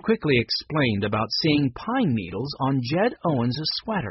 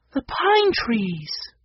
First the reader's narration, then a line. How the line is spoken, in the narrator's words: Violet exclaimed